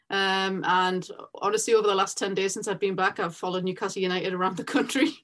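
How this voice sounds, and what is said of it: Thick Newcastle English accent. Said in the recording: “I'm originally from Newcastle, England ... the accent might be a little bit thicker.”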